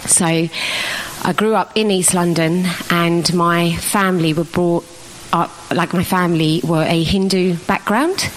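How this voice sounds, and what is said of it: East London accent. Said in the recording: “I'm from East London, as you can probably tell from my accent”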